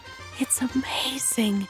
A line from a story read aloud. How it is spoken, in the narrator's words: the queen whispered